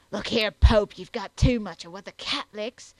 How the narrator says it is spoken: the butcher savagely and in a hoarse stage whisper exclaimed

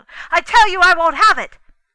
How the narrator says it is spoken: to go shouting out

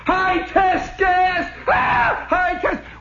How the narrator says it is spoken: hollers

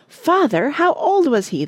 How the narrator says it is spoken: they cried

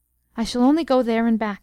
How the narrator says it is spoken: he said

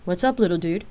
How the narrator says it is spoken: she answered with a chuckle

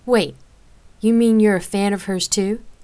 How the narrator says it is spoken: Rain chuckled, astonished

